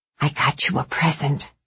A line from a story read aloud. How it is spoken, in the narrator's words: she whispered